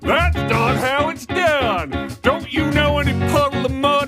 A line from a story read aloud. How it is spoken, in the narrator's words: yells